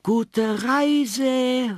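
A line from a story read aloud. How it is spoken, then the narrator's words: Called out. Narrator (German): rief Kathi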